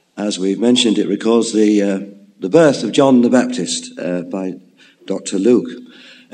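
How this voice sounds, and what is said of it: Hoarse, strained, nearly lost voice. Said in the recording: “Sorry about my voice. ... It seems to have gone last night, and I'm struggling”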